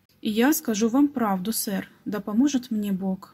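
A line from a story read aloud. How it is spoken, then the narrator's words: Plain. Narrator (Russian): ответил Нет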